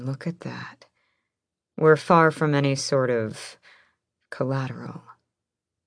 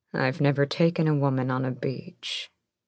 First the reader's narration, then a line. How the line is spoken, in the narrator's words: he purred against her skin